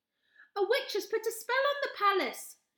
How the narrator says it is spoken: shouted Charlie

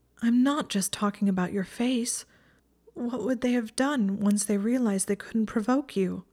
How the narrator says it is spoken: Her voice was shaking faintly

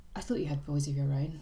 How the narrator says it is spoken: said the Duke softly

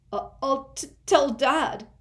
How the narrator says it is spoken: Dudley whimpered

